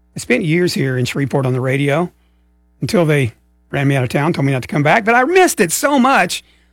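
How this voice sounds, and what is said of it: Strained voice. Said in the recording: “my voice is a little strained right now”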